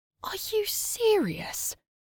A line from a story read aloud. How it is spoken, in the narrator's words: whispered